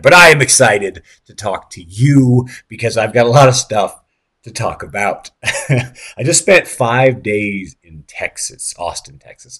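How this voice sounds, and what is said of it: Hoarse, shredded voice. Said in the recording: “I also apologize for my voice. It's a bit shredded at the moment. I'm still kind of recovering from some stuff.”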